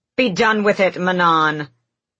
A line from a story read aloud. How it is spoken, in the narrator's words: The Blackbeak matron snapped